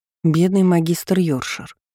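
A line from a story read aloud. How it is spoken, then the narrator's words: Sighing. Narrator (Russian): вздохнув, произнесла Марлин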